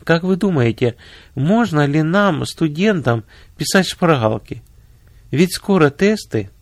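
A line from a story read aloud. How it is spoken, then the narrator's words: Timid question. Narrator (Russian): две студентки робко спросили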